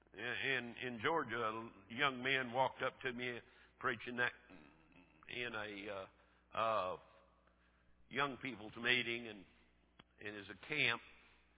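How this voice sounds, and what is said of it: Southern American brogue. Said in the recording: “this is Brogue comes from South Carolina, Oklahoma, West Texas, and anywhere else I've been”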